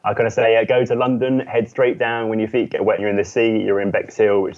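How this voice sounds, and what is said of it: British accent, southeast England. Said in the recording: “You do have an accent ... I'm from the UK ... on the southeast coast right at the bottom”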